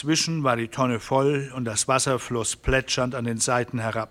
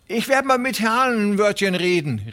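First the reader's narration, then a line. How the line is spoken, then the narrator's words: Called after someone. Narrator (German): rief ihm Hufen nach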